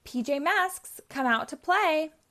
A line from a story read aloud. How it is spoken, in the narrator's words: Romeo shouts